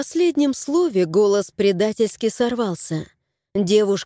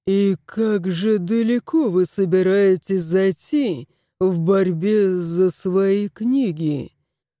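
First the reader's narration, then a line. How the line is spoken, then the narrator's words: Ingratiating inquiry. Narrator (Russian): вкрадчиво осведомился начальник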